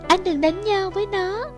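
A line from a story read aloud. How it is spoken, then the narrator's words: Frightened pleading. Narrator (Vietnamese): Tiểu Ly sợ hãi can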